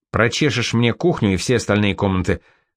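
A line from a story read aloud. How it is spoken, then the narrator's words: Commanding bossy tone. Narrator (Russian): начальственным тоном велел Пассан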